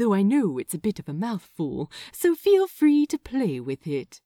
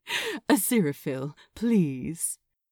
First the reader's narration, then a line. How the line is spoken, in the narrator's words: the soothing man said, with a soft chuckle